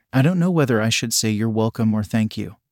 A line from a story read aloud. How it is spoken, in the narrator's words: murmured with a laugh